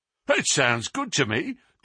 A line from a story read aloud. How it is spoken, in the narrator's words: cried Sam Merton with a grin